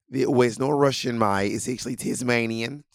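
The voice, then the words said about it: Put-on Australian accent, sounds Russian. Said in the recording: “your Russian Australian accent ... Now you're Dutch and South African.”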